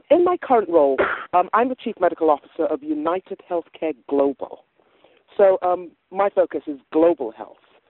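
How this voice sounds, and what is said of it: Hybrid West African-English accent. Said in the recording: “I love your accent... I'm originally from West Africa, but grew up in England, so it's a hybrid accent... that's a familiar accent”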